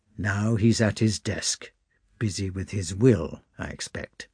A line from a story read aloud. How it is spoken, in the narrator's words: Mikhail Ivanovich went on, lowering his voice